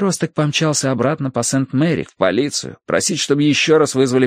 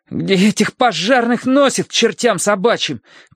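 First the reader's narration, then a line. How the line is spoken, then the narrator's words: Teenager shouting. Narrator (Russian): крикнул подросток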